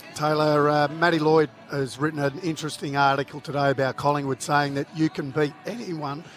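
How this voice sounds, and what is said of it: Hoarse, strained voice. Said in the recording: “I've got a little bit of laryngitis there, mate.”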